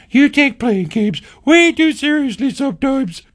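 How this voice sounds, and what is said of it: Imitates another person's voice. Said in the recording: “My impression of my wife is getting spot on here.”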